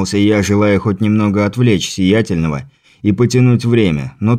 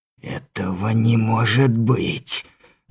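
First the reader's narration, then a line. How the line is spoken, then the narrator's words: Hissed in shock. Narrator (Russian): прошипел, побелев, словно мел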